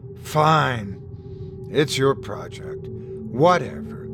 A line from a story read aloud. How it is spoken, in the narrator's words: she sighed